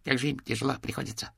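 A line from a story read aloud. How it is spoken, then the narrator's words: Rapid chattering. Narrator (Russian): затараторил он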